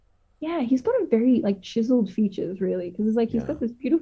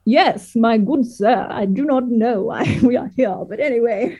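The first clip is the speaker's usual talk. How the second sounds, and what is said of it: Imitated posh English accent. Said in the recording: “his very regalist English accent ... speaking in a British accent”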